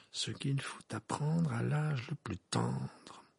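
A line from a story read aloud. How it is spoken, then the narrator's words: Murmured. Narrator (French): murmura Harry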